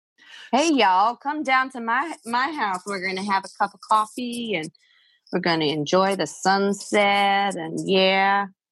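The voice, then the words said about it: Put-on Southern American accent. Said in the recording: “like an old Western movie accent. Yeah. Southern accent.”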